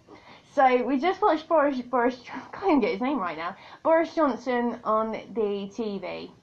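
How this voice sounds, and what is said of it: British accent. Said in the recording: “if you haven't checked out my accent yet, I'm a Brit”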